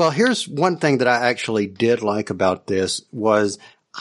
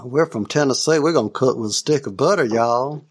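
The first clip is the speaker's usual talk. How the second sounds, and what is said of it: Cartoony put-on hillbilly Southern accent. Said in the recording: “this hillbilly uh, off ... it sounds like a very cartoony accent”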